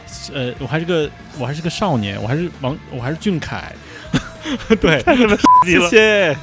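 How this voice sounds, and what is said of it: Taiwanese-tinged Mandarin accent. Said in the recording (Chinese): “我突然想起我为什么口音是这样，我因为我上个通告是在台北广播电台”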